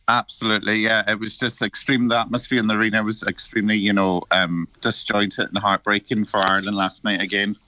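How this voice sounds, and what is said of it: Slightly hoarse voice. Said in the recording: “A bit of a hoarse voice from last night”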